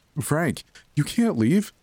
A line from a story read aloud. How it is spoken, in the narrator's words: Em shouted